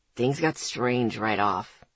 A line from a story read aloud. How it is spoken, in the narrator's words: he said dryly